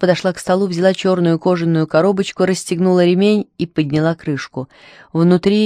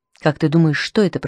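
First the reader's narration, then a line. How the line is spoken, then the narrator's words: Whisper. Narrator (Russian): прошептала она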